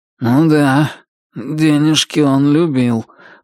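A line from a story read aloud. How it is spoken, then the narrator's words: Gloomy. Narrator (Russian): мрачно заметил Туз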